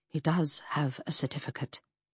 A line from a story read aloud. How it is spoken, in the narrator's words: matron confirmed quietly